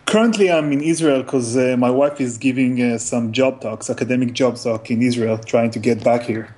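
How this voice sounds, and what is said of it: Israeli accent. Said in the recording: “his wonderful accent ... is from Israel”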